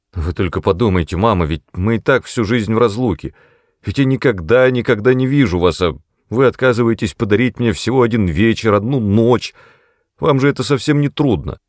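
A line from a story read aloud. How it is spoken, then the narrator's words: Stubborn demanding tone. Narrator (Russian): говорил он своим упрямо требовательным тоном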